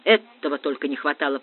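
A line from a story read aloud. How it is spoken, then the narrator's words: Muttering. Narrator (Russian): пробормотал Ратибор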